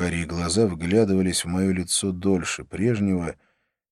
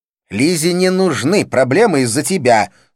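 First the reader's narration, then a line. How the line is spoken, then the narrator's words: Angry female voice. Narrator (Russian): сказала она сердито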